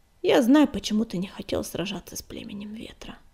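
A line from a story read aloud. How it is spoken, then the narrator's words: Quiet. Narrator (Russian): негромко начала она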